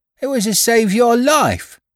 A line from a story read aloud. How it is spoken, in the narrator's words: cried the boy